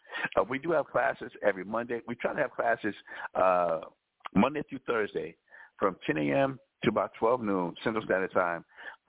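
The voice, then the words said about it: Raspy voice. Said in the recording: “raspy voice, raspy, confusing, in and out voice”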